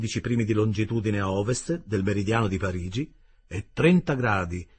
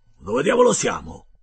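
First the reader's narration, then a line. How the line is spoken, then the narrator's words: Exclaimed. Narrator (Italian): esclamò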